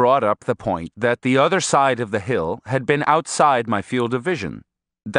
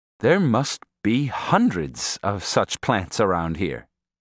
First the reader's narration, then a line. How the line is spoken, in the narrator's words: I said